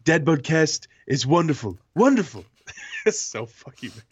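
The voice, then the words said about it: Donald Trump impression. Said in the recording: “should I do my Donald Trump impression?”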